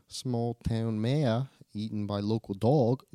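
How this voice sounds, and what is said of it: Put-on Australian accent. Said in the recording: “if you read it in a Australian accent.”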